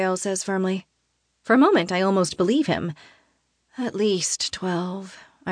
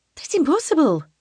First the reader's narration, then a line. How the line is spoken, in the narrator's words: Freya blurts